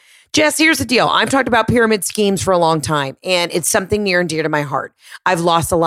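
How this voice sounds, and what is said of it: Usual voice. Nothing is said of it.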